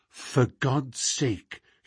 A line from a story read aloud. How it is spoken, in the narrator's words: he whispered confidentially